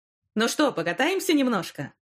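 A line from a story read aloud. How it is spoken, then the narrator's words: Cheerful driver. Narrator (Russian): весело предложил водитель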